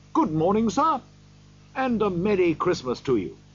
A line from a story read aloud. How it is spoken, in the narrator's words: Three or four men said cheerfully